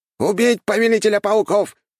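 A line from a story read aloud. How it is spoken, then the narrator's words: Shouting leader. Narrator (Russian): прокричал главарь отряда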